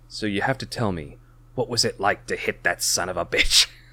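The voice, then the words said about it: Put-on accent for a character. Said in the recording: “That was the wrong accent... That was pretty good, still.”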